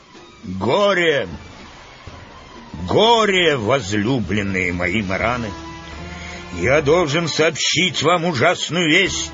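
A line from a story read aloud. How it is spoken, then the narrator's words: Booming, dramatic pause. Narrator (Russian): Помолчав некоторое время, чтобы накалить интерес, Урфин начал зычным голосом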